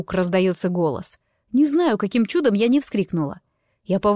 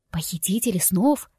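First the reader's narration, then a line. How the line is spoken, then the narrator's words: Whispered question. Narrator (Russian): переспрашиваю шепотом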